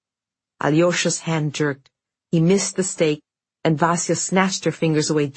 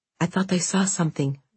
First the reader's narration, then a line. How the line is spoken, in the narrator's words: Vasya whispered